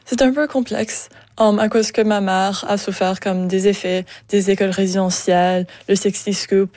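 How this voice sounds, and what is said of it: French-from-France accent. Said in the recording (French): “Français de la France ... on l'entend dans votre accent”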